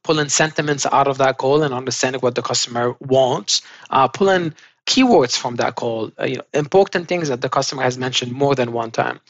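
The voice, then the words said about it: Fast speech with own accent. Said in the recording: “I sometimes speak fast, as you can tell on this call ... especially with my accent”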